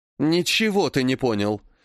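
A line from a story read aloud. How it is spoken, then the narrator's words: Suddenly angry. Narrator (Russian): неожиданно зло сказала тетя Алла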